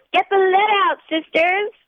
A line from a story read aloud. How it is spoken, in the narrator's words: she yells